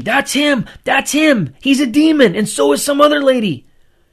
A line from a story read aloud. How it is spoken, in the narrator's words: Grandpa started screaming